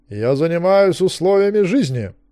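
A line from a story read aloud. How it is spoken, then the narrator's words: Booming female announcement. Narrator (Russian): трубным голосом объявила она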